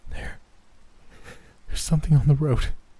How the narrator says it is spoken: Janelle said shakily

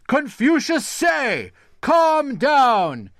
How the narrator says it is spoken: shouted the servant to the rest of the household

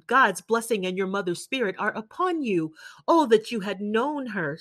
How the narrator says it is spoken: exclaimed

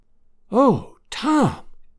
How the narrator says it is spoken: whispered Aunt Sally, tears of happiness streaming down her old face

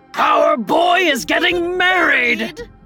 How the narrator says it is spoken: They yelled

